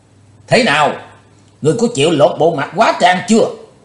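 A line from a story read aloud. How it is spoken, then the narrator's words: Loud shout. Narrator (Vietnamese): Ông ta dở giọng quát lớn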